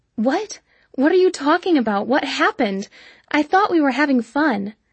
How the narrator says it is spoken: pleaded

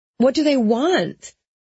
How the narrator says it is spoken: I yelled over the noise from the freeway

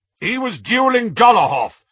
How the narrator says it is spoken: shouted Aberforth

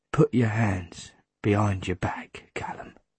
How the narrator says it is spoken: Jack says quietly

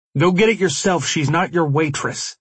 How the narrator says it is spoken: I snapped at him angrily

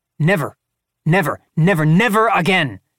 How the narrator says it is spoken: Trump shouted

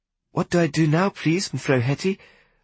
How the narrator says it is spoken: I inquired nervously

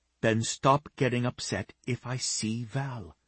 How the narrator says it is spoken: she whispered

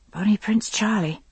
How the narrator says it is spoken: I said softly to myself

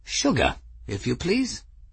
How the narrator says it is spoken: Ferris said calmly

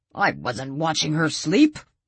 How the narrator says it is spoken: Walt said indignantly

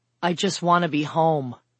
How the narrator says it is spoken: Bee assured her wearily

